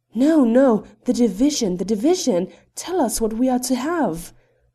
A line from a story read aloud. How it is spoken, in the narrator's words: rose in a shout about him